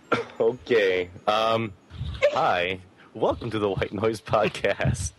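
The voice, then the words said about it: Put-on Greek accent. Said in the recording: “It's just his Greek accent.”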